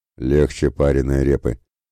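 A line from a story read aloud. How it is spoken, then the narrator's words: Pleased grumble. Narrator (Russian): проворчал довольно Ратибор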